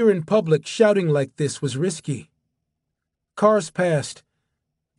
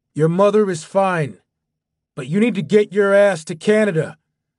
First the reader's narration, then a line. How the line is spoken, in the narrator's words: Dawson shouted